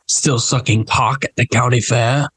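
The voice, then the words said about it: Impression of the character Logan. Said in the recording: “You don't have a half bad Logan impression ... my Logan impression is not bad. It's not bad.”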